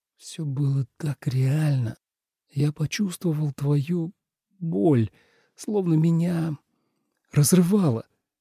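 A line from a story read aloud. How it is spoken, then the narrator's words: Frightened mumbling. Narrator (Russian): испуганно бормотал Тоби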